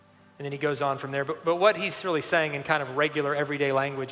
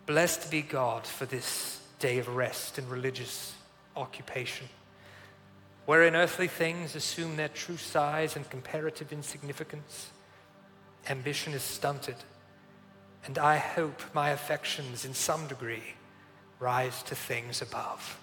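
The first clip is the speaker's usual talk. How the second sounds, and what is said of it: Attempted British accent. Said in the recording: “these words just beg to be read in at least an attempt at a British accent. So I'm gonna try to do this”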